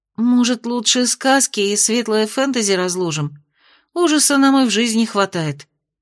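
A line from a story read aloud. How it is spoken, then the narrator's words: Timid suggestion. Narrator (Russian): робко предложила Майя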